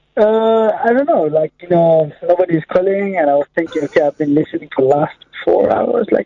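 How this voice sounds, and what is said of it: Foreign accent. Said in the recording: “You're definitely foreign, yeah? ... It's a great accent, but it's a great accent”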